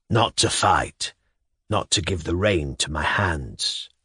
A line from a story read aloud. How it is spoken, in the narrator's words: answered the kneeling gentleman hoarsely